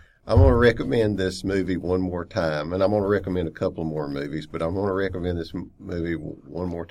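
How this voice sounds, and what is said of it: Usual voice. Nothing is said of it.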